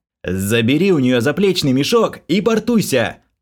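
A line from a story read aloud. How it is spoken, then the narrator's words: Yelling over loud din. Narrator (Russian): Заорал я, перекрикивая немыслимую какофонию из криков, хруста, визга и крохота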